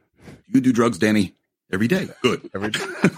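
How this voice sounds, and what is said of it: Imitates another person's voice. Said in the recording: “my Chevy Chase impression.”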